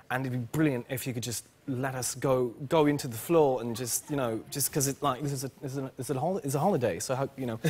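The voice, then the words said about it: Fake British accent. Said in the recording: “this is a fantastic British accent”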